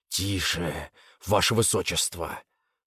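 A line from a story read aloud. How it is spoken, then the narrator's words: Said through gritted teeth. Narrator (Russian): сквозь зубы произнес Шихао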